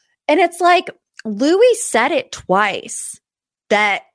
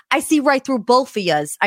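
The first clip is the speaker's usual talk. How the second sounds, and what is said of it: Deliberately bad New Jersey accent. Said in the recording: “I know I have a terrible, terrible New Jersey accent. I had to practice that.”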